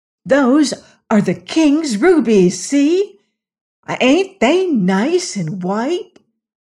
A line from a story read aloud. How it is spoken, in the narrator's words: The woman with the child turned to a companion, exclaiming audibly